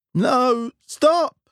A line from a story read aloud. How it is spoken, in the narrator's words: he cried